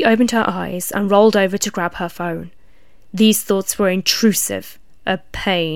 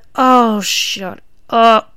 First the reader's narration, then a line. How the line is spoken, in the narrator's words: X grumbled